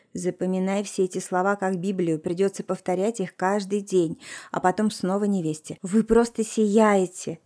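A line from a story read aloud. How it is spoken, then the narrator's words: Quiet remark. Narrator (Russian): тихо проронила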